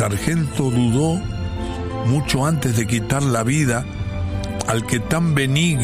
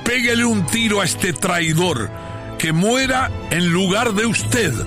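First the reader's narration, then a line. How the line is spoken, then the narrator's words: Roaring. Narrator (Spanish): rugió el caudillo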